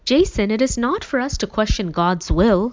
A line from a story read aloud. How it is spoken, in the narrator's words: finally exclaimed